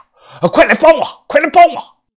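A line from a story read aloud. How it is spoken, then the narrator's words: Angry shout. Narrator (Chinese): 他怒声的喊呀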